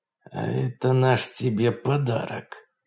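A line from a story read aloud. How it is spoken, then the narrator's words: Through gritted teeth. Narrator (Russian): процедил сквозь зубы Дик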